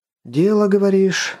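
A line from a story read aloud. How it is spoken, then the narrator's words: Sighing agreement. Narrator (Russian): вздохнув, согласился Воронцов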